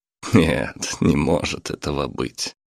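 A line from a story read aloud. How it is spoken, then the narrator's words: Laughed. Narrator (Russian): рассмеялся Александр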